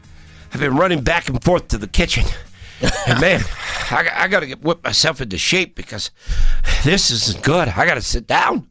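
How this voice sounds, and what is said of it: Out-of-breath, winded voice. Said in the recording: “I'm out of breath this morning.”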